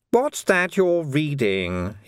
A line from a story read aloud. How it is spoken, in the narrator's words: he snapped